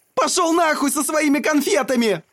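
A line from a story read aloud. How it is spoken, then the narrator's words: Furious bark. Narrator (Russian): Рявкнул Матти так яростно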